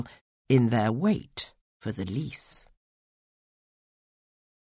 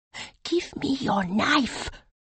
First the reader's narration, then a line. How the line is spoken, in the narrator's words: whispered urgently, snarling anger